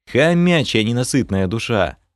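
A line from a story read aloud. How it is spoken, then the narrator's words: Tired snort. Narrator (Russian): Фыркнул я, устало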